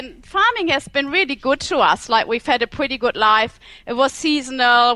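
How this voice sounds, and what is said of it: German accent. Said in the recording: “from Germany, right? That's ... the accent.”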